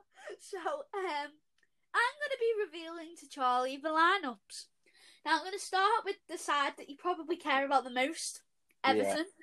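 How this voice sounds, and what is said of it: Liverpool Scouse accent. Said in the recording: “Don't know if you can tell by our accents yet, but yes, we are from Liverpool. ... Scouse”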